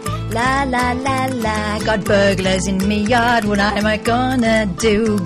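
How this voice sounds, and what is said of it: Sings in a put-on accent. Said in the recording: “You're doing the accent I was desperately trying to avoid in the last song. ... I was doing a flamenco vibe.”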